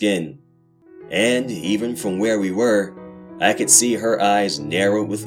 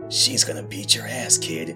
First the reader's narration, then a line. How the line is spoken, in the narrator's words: I whispered